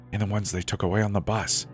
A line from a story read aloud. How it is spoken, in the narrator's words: whispered